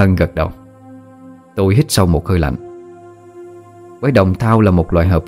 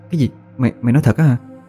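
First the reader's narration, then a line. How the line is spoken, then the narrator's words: Stunned stammering question. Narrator (Vietnamese): Tôi kinh ngạc tròn mắt, miệng lắp bắp hỏi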